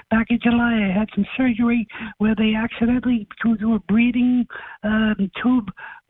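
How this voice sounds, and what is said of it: Damaged, strained voice. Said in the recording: “apologize for my voice... whacked into my vocal cords... sound like Mickey Mouse or a mafia don”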